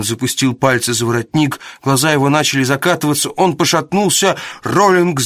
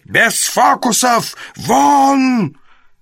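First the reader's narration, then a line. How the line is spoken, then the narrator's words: Hoarse wheeze. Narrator (Russian): Гарин захрипел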